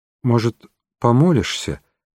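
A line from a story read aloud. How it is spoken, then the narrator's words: Hesitant suggestion, man. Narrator (Russian): неуверенно предложил мужчина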